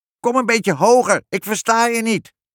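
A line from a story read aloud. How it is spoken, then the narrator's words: Witch shouting. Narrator (Dutch): schreeuwde de heks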